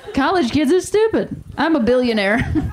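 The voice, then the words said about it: Imitates another person's voice. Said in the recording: “my Jerry Seinfeld impression.”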